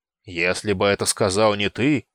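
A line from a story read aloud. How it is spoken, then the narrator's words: Menacing voice. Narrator (Russian): недобрым голосом начал Сапроний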